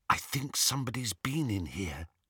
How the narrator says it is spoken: Hermione whispered

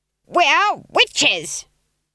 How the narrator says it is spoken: screamed Granny, turning her face towards the sky

